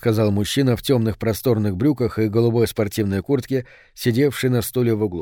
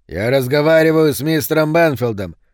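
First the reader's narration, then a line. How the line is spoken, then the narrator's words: Barking. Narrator (Russian): рявкнул Рис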